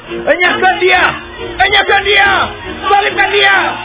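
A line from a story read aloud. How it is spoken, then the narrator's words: Crowd shouting. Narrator (Indonesian): berteriaklah mereka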